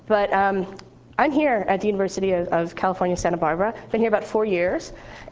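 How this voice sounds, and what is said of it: Congested voice from a cold. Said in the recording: “I also have a cold, so my voice may run out.”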